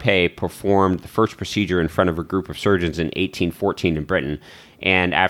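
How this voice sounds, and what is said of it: Usual voice. Nothing is said of it.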